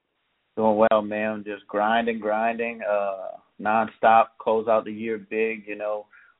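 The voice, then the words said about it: Louisiana accent. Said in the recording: “you have one of the best accents I've ever heard in my entire... I laugh at your accent because the way you put your words... you got a great, great, great Louisiana accent. It's so unique to me.”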